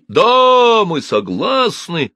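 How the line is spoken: Crowd shouting. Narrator (Russian): закричали кредиторы

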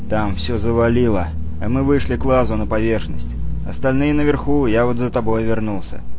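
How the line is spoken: Even voice. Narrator (Russian): говорил он ровным голосом

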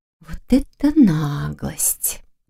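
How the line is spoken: Soft whisper. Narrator (Russian): тихо прошептала Лиля

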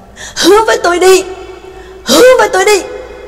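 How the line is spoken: Roaring. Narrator (Vietnamese): Trác Mộc Cường Ba lại gầm lên

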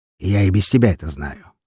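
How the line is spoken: Scoffing. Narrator (Russian): хмыкнул он

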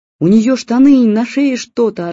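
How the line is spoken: Yelling. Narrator (Russian): орала

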